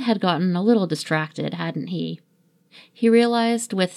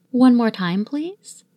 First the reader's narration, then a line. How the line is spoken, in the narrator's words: Steed asked